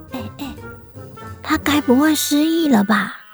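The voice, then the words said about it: Whispered, quiet voice. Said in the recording (Chinese): “小声地说”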